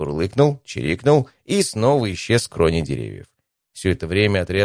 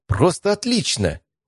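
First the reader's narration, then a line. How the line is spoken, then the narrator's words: Impulsive exclamation. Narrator (Russian): Не удержавшись, воскликнула Евгения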